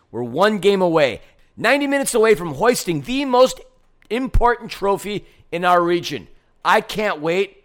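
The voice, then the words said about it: Strained, worn-out voice. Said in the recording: “I'm dying as far as my voice is concerned.”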